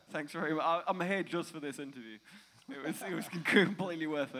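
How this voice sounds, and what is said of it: English accent. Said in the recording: “I'm from England. ... You might have been able to tell with the accent”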